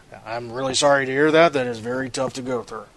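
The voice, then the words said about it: Imitating Sean's voice. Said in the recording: “in his Sean voice”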